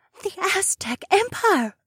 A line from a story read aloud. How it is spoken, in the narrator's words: Emma whispered to me